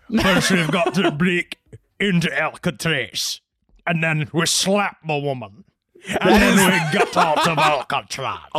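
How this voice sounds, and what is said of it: Poor imitation of another person's voice. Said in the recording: “Are you doing Sean Connery? ... that's the worst Sean Connery I have ever heard in my life.”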